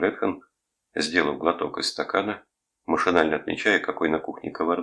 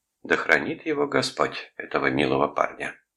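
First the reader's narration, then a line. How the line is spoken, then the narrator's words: Sighing. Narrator (Russian): вздохнула Мэри Джейн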